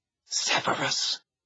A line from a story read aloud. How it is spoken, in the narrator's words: she said in a strained whisper